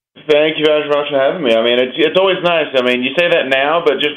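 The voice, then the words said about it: Cool foreign accent. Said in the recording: “it's even more fun with your accent ... it is always fun to talk to somebody with a cool accent”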